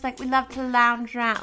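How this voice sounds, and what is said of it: Weak attempt at British accent. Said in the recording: “I don't even know why I can't do a British accent right now. I'm just better at Australian.”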